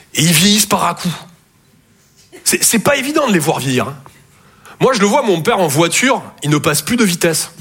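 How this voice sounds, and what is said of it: Toulouse southern French accent. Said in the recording (French): “Je viens de Toulouse à la base. Ouais, ça s'entend un peu.”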